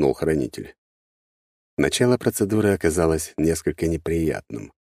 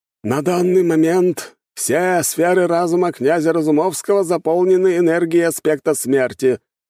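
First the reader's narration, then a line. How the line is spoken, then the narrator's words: Loud proclamation. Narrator (Russian): громко возвестил хранитель чаши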